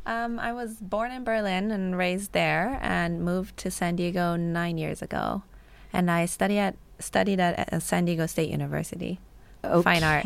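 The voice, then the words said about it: American Valley Girl accent. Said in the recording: “you're speaking complete American... she has a Valley Girl accent”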